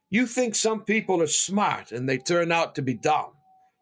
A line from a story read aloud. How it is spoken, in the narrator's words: he said